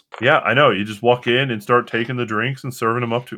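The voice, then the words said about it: Deep character voice. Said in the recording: “your voice, it got so deep ... Why does it sound like Napoleon Dynamite?”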